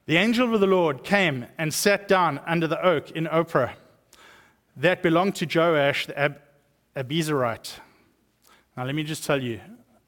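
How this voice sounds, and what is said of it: South African accent. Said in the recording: “I have the advantage of having a South African accent ... in a South African accent, everything sounds good.”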